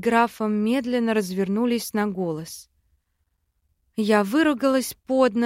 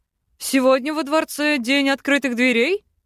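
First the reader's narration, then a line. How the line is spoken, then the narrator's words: Chuckling. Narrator (Russian): хохотнул бывший однокурсник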